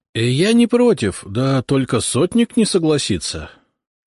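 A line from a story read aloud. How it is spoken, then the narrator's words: Uncertain. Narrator (Russian): как-то неуверенно произнес Фомин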